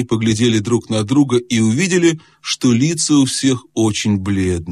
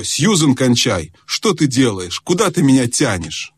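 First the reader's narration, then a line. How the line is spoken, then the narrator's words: Stern. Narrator (Russian): он сказал строго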